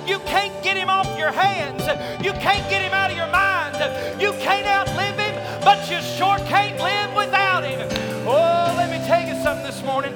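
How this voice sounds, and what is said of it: Loud screaming sermon delivery. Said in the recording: “I'm screaming my brains out up here ... Maybe I won't scream at you”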